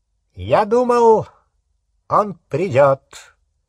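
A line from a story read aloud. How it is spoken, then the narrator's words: High clear voice. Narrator (Russian): сказал Волан-де-Морт своим высоким ясным голосом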